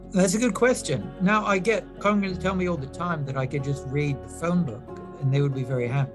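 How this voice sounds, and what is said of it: British accent. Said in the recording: “I provide the British accent ... with your accent”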